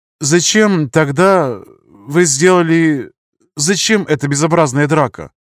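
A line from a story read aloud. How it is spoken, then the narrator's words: Nervous stammering. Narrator (Russian): Молодой человек краснел и запинался, видимо, от волнения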